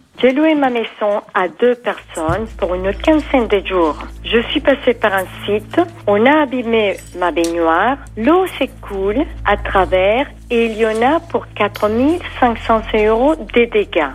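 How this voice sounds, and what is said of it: Slight American accent. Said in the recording (French): “qui a un petit accent américain”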